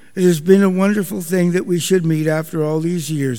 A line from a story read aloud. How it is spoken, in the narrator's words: the abbot said